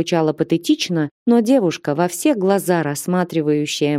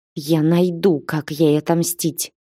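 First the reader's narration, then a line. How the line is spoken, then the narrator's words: Through clenched teeth. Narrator (Russian): процедила сквозь зубы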